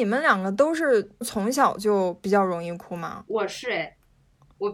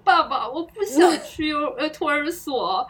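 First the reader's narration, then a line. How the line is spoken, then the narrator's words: Crying. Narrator (Chinese): 我抱着他的腿哭说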